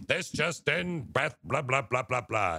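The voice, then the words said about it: Mock TV news anchor voice. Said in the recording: “She has this weird news voice.”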